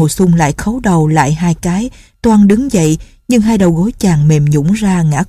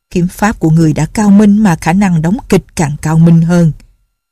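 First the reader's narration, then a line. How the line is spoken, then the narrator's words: Cold sneering. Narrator (Vietnamese): Nhạc Bất Quần cười nhạt nói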